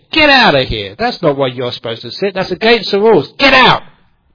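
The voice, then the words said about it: Angry shouting voice. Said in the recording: “Was that a good impersonation of anger?”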